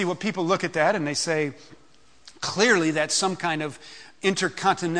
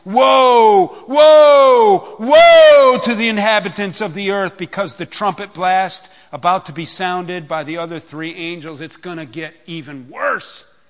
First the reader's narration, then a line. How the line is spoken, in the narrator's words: an eagle that was flying midair call out in a loud voice